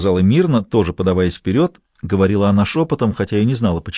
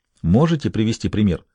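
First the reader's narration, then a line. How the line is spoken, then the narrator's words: Quiet question. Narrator (Russian): тихо спросил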